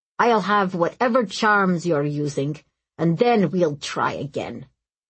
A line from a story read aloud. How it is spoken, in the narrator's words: the Sirajit boy snapped